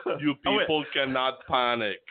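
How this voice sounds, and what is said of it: Badly done imitated accent. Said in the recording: “That's an awful accent. ... That's horrible, wasn't it? ... He made me sound like I felt like I was the Terminator there.”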